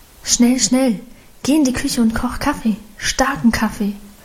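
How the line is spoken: Urgent low murmur. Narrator (German): raunte sie ihrem Mann zu

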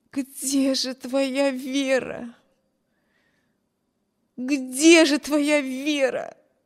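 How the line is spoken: Anguished repeated moaning. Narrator (Russian): Стонала бедная Эми, снова и снова повторяя про себя

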